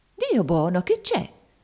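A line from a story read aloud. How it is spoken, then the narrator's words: Startled exclamation. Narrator (Italian): esclamò la zia Chloe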